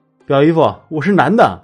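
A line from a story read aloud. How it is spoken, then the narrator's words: Excited loud answer. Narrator (Chinese): 我非常的激动，大声的回答他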